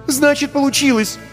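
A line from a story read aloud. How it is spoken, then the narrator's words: Exclaimed. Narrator (Russian): воскликнула Вика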